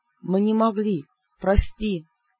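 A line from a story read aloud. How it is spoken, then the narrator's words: Guilty whisper. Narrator (Russian): виновато прошептал Бер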